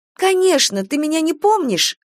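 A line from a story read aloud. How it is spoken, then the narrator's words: Exclaimed. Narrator (Russian): воскликнула Кира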